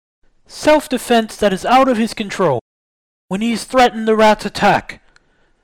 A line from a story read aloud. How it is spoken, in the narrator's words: It was Aline that called out